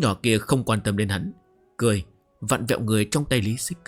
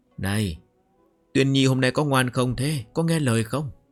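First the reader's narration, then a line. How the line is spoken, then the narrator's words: Smiling, affectionate question. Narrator (Vietnamese): Lý Xích Kính mỉm cười âu yếm hỏi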